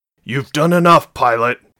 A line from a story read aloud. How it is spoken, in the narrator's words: he snapped at her